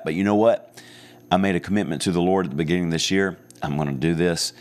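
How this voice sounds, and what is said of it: Raspy, hoarse voice. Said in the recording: “I apologize for the raspiness, the hoarseness ... this raspy voice ... maybe this one doesn't sound as pleasant or as radio crisp as it usually does”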